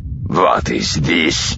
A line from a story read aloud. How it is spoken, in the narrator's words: Kazadi snarled, his rage suddenly back again